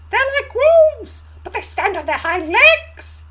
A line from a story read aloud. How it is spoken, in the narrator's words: he squeaks, shuddering